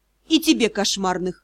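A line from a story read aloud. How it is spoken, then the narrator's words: Thoughtful reply. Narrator (Russian): задумчиво ответила ведьма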